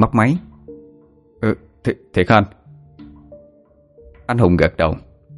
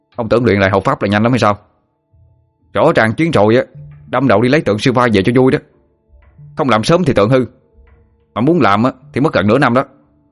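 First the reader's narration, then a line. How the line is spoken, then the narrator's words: Snapped irritably. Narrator (Vietnamese): Sinh gắt lên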